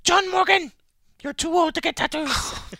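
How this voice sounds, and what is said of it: Imitates another person's voice. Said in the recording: “Is that my wife's accent?”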